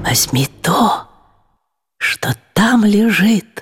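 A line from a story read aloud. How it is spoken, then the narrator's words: Whisper in ear. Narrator (Russian): голос, шепнувший на ухо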